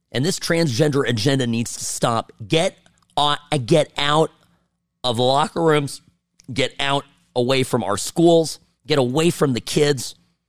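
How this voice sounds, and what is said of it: Hoarse, worn-out voice. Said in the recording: “I've lost my voice. It's not even sounding like me anymore.”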